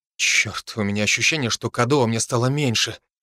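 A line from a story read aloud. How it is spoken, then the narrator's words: Muttered under breath. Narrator (Russian): пробормотал я себе под нос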